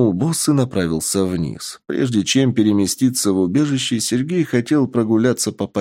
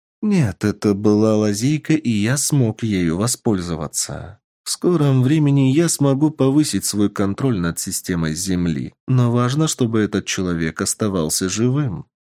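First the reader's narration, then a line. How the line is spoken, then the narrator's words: Calm voice. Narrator (Russian): спокойным голосом ответил Шар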